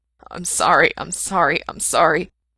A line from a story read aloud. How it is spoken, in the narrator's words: mumbled, unable to stop the words from falling out of his mouth, blurry and ragged